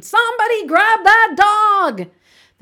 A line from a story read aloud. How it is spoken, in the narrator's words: The manager screamed